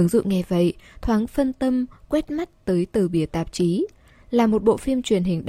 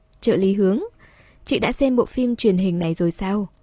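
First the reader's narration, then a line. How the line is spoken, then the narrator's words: Smiling question. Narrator (Vietnamese): cậu ta mỉm cười hỏi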